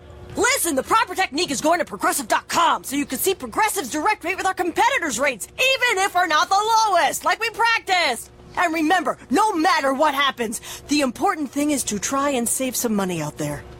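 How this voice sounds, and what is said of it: Coach giving a pep talk voice. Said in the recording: “my impression of a coach giving the ultimate pep talk”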